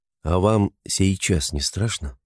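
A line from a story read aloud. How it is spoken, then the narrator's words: Quiet question. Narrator (Russian): тихо спросил отлучный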